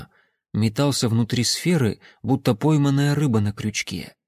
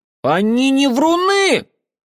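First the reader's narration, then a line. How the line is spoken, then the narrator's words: Loud and indignant. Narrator (Russian): Очень громко и возмущенно объявила Элоиза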